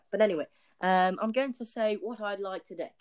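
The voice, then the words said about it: Weird-sounding put-on accent. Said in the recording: “my accent might sound a bit weird”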